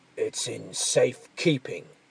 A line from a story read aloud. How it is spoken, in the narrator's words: he growled